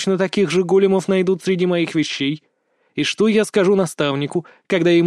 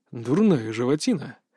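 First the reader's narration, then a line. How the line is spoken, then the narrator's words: Muttering. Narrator (Russian): пробормотал Лен Архо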